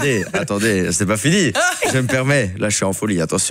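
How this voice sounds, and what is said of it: Usual voice. Nothing is said of it.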